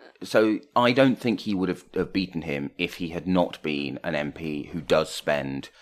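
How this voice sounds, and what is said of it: Usual voice. Nothing is said of it.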